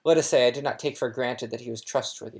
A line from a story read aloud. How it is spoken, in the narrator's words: said Dumbledore